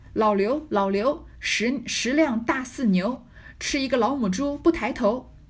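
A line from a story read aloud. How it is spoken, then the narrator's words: Loud. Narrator (Chinese): 刘姥姥高声说道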